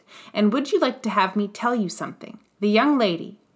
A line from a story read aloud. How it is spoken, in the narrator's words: he exclaimed